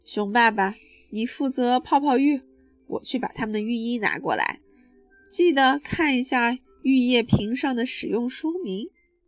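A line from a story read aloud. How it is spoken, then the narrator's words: Sighing. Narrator (Chinese): 熊妈妈叹了一口气说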